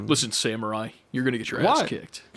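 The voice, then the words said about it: Johnny Silverhand impression. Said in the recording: “That's my Johnny Silverhand impression. ... Keanu.”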